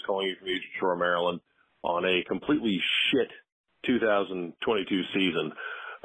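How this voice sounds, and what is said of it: Radio announcer style voice. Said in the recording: “the radio voice”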